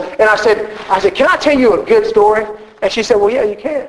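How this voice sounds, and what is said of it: Southern American accent. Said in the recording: “thank God for a southern accent sometimes”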